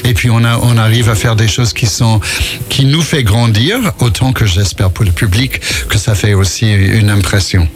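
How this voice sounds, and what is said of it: American accent speaking French. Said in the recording (French): “on entend votre accent, parce que vous êtes américain”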